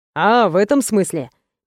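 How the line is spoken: Soft laugh. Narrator (Russian): мягко рассмеялся Роман

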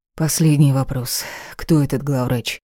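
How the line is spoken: Heavy tired sigh. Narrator (Russian): тяжело вздохнула, но, кажется, так устала, что не могла бороться

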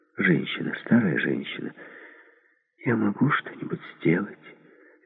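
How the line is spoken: Soft question. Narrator (Russian): Мягко спросила

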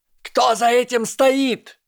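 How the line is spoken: Shout. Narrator (Russian): крикнула Амелия

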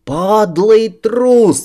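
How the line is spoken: Yelling across a river. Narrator (Russian): орал я через реку

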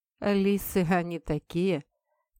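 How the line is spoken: Wry smirk. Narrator (Russian): криво усмехнулся кореец

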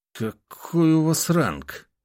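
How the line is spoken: Forced, strained words. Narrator (Russian): выдавил он

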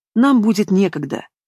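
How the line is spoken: Grumbling. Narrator (Russian): продолжает ворчать Демьян

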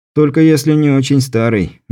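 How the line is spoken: Snorting. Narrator (Russian): Беляев хмыкнул

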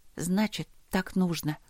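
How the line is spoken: Mumbling. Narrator (Russian): пробормотала я

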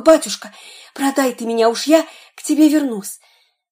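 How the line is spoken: Whisper in ear. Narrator (Russian): мальчик с пальчик шепнул ему на ухо

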